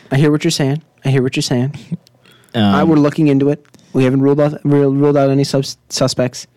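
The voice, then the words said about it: Imitates another person's voice. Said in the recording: “That's my Jake Gyllenhaal consoling. That's my impression.”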